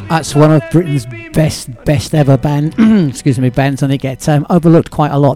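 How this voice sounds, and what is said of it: Strained, failing voice. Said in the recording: “My voice is going.”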